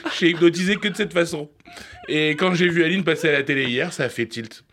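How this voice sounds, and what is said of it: Put-on Québécois French accent. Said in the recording (French): “C'est quoi cet accent ... c'était un cours par correspondance avec le Québec ... Arrête avec cet accent, s'il te plaît, ça devient très très gênant.”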